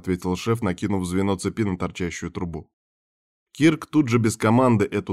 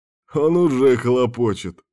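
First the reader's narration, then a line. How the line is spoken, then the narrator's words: Short laugh. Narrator (Russian): хохотнул Кирк и устало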